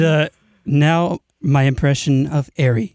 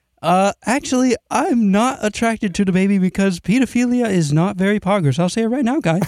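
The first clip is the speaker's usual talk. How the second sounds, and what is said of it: Imitates another person's voice. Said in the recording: “Here's my impersonation of Jacob.”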